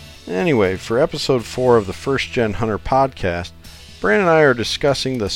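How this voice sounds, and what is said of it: Usual voice. Nothing is said of it.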